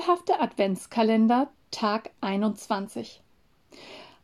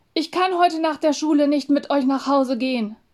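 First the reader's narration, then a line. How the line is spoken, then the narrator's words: Calling out to others. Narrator (German): rief Samu den anderen zu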